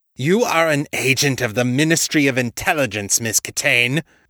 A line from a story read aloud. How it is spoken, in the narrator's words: Halloway snarled